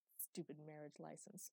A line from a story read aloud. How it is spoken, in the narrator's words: muttered Coon, his face red